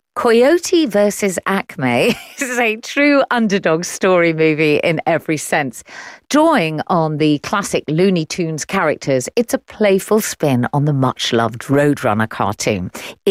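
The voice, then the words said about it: English accent. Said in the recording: “Shall I carry on doing it in my English accent?”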